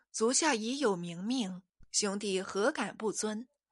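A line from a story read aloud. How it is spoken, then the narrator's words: Plain. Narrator (Chinese): 一面说着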